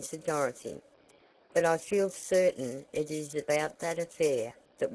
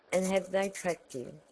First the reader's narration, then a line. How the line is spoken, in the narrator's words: asked Tavia